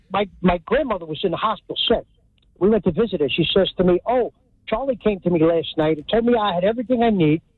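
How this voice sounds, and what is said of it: Hudson County accent. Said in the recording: “This is a real Hudson County accent”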